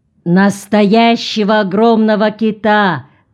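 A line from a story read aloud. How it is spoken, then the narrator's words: Shout. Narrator (Russian): крикнул Джон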